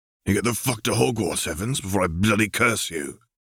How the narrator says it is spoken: Arcturus growled

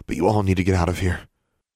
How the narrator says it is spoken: Alexandra said breathlessly

